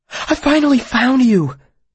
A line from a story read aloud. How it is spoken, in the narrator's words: said breathlessly